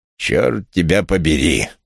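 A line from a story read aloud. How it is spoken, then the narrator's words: Growling. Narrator (Russian): прорычал он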